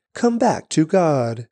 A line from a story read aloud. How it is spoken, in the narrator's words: We speak for Christ when we plead